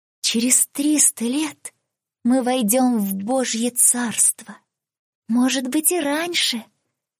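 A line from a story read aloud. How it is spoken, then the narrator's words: Whisper. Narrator (Russian): прошептала одна из дочерей воздуха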